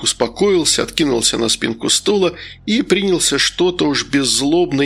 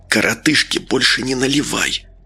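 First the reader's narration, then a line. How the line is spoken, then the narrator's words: Whisper. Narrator (Russian): шепнул медовар Вениамину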